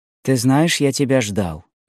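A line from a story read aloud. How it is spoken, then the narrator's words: Plain. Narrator (Russian): сказал Люсьен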